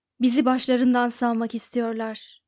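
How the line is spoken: Irritated voice. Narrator (Turkish): dedi Trillian sinirli bir sesle

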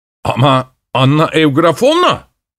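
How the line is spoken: Shouted. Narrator (Turkish): diye bağırdı

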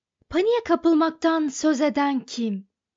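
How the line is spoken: Shouting. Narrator (Turkish): diye bağırdı Arthur

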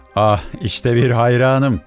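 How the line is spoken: Shouted. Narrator (Turkish): diye bağırdı

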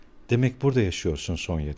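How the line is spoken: Plain. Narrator (Turkish): dedi

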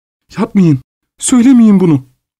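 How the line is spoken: Crying out. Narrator (Turkish): diye haykırdı

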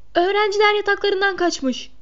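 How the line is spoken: Crying out. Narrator (Turkish): diye haykırdı Peeves

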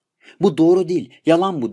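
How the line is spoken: Shouting. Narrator (Turkish): diye bağırdı Gigi

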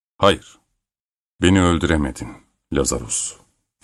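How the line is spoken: Firm voice. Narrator (Turkish): dedi kararlı bir sesle

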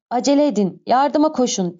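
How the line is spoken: Shouting. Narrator (Turkish): diye bağırdığı duyuluyordu

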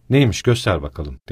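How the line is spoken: Plain. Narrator (Turkish): dedi

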